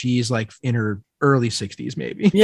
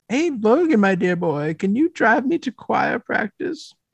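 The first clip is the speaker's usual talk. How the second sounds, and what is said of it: Funny character voice. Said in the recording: “I'm giving her a funny voice”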